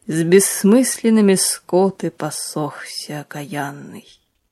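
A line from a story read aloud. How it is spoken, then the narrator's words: Slow amused priest. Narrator (Russian): проговорил отец Андрей медленно со смеющимися глазами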